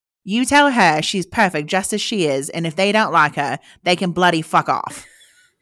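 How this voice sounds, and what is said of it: Deliberately bad British accent. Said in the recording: “I'm going to do a really terrible British accent”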